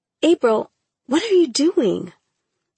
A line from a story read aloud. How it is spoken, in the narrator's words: I gasped, blurting out